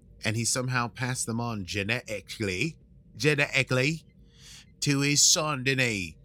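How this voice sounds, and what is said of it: Attempted British accent. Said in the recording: “with a British accent ... I'm not sure it was effectively a British accent. It was an attempt”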